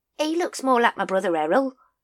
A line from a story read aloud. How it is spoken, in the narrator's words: said Nobby, playing the cheeky, chirpy, lovable city sparrow card for all it was worth